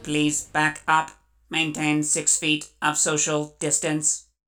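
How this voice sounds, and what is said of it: Robotic synthetic voice. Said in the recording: “the little robot voice”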